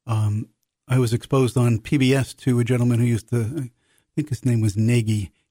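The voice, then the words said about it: New York City accent. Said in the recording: “growing up in New York City, which you can probably tell from my accent”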